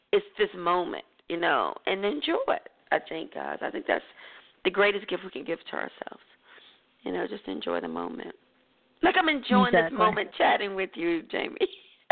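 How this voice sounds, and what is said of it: Hoarse, croaky voice. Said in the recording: “I feel like I have a frog in my throat. ... I've been sounding like that too.”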